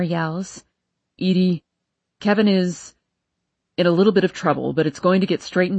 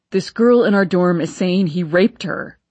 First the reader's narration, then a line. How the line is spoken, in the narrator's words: Kalen shouts